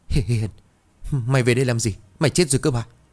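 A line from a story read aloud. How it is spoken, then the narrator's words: Trembling voice. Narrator (Vietnamese): Nhạn nói bằng giọng run rẩy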